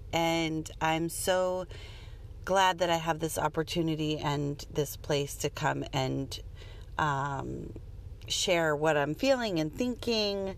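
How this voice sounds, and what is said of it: Raspy, strained voice. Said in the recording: “My voice feels a little raspy this morning, literally because I screamed at my kids... My voice hurts.”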